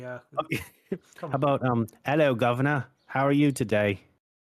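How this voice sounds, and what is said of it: Scottish-sounding attempt at English accent. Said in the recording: “That sounds like a Scottish person trying to put on an English accent.”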